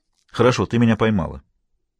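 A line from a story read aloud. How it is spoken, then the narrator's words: Almost angry. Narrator (Russian): заявил Хэммон почти сердито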